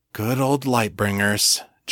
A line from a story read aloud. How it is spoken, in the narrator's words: John sighed